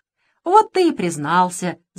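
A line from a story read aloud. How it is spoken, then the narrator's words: Queen laughing. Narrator (Russian): засмеялась королева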